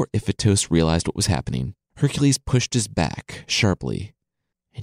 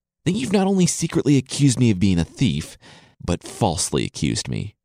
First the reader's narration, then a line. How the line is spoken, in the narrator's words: Hercules said through clenched teeth